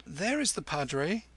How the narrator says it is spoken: Kim choked

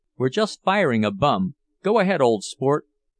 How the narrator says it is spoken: a voice shouted cheerily

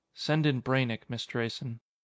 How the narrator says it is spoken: Malloy said softly

